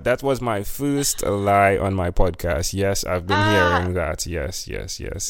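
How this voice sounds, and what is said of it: Speaks with a noticeable accent. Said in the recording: “Such a gorgeous accent.”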